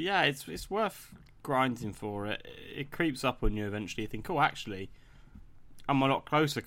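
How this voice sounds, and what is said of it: Usual voice. Nothing is said of it.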